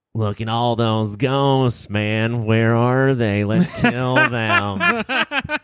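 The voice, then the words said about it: Good Christian Slater impression. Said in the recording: “That's a pretty good impression. ... Christian Slater?”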